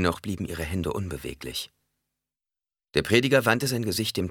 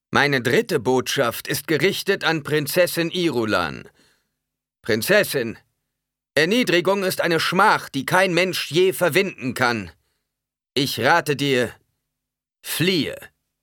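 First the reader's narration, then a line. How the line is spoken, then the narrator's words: Loud call. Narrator (German): rief er laut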